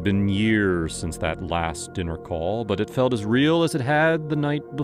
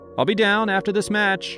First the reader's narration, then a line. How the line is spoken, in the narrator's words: I yelled back, more out of habit than anything else